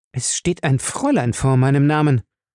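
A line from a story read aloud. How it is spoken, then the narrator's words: Hissed angrily. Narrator (German): fauchte sie ihn an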